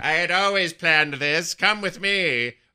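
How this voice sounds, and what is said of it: Sylvanas impression, Skeletor-like villain voice. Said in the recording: “talking like Skeletor from the 80s yeah. He-Man cartoon ... my Sylvanas impression”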